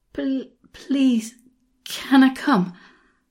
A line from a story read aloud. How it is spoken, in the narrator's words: panted